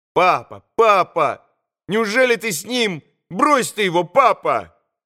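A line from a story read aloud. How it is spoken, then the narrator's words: Boy's sudden shout. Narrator (Russian): крикнул вдруг мальчик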